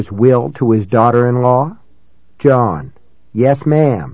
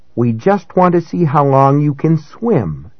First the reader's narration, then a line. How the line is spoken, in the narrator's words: called out